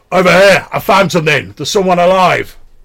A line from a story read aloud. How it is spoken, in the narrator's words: you hear Bullseye, your Ice Walker retainer, shout